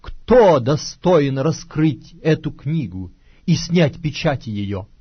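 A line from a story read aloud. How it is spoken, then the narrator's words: Loud proclamation, mighty angel. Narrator (Russian): ангела сильного, провозглашающего громким голосом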